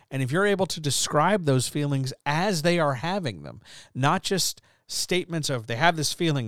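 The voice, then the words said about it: Tired, slightly scratchy voice. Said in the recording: “is tired right now because I'm recording this late at night ... my voice is a little scratchy ... I'm having to stop and pause and drink some water every few sentences”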